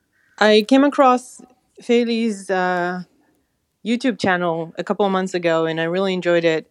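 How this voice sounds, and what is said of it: Israeli accent in English. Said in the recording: “I'm guessing that she's Israeli. ... it just sounds ... I just feel like she might be Israeli. ... it's not an accent that I recognize”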